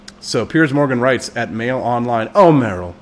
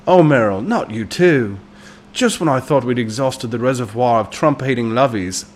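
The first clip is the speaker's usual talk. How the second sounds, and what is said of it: Attempted Piers Morgan British accent. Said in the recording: “I can't do his accent, but I might try sometimes ... I'll accidentally snick some Cockney in there, and Piers Morgan is not Cockney. He's got the more high-minded British.”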